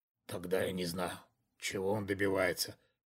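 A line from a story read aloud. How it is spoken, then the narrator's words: Slow mutter. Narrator (Russian): медленно пробормотал мужчина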